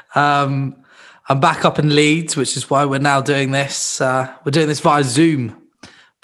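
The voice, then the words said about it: Sounds ill. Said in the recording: “I'm a bit ill. You can probably hear it in my voice.”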